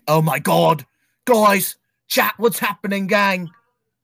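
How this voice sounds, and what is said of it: Imitates another person's voice. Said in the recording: “that was my Dawko impression”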